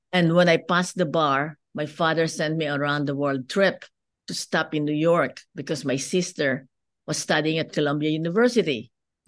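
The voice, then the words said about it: Filipino-accented English. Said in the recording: “as you can see from my accent, I'm not born in the United States. I grew up in the Philippines.”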